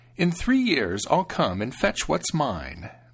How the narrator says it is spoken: the stranger said with a snide laugh

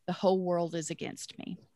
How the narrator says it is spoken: muttered

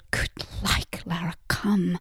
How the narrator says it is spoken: Jan muttered

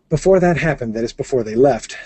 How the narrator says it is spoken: said Holly

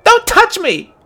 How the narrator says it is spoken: shouted, her eyes suddenly brimming with tears

